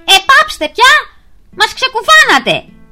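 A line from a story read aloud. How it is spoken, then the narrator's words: Furious ant shouting. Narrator (Greek): φώναξε αγριεμένος ο Μίλτος το Μυρμίγκι στα τζιτζίκια της ελιάς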